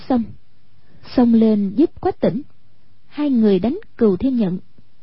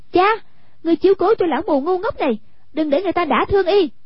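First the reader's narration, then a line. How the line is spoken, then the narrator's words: Shouted. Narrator (Vietnamese): Hoàng Dung quát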